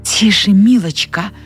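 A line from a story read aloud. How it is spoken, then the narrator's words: Hissed. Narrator (Russian): прошипела Салли Монро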